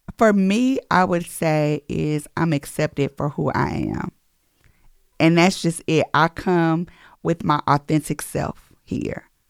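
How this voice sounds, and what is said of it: Slight country accent. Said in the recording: “I have a little country accent”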